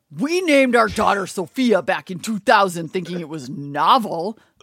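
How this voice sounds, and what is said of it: Angry old man voice. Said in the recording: “you had to do it in angry old man voice”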